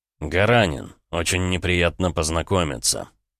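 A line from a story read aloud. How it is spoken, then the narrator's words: Cold. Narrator (Russian): холодно проговорил он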